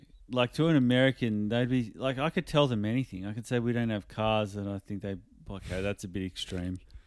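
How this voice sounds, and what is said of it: Australian accent. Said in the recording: “having this accent ... in Australia”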